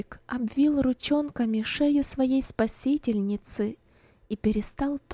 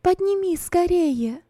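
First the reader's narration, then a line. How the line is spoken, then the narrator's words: Shouting. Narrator (Russian): крикнула Роза и только после этого облегченно вздохнула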